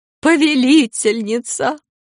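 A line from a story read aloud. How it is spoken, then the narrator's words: Sobbing woman. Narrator (Russian): женщина, рыдавшая над Корделиусом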